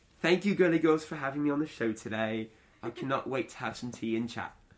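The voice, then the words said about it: Put-on British accent. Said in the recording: “Do your best British accent. ... That was excellent.”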